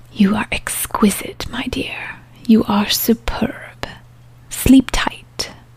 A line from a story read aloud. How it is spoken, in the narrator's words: The vampire she whispered